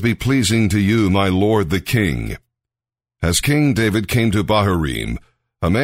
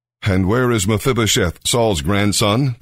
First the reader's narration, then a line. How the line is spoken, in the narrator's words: the king asked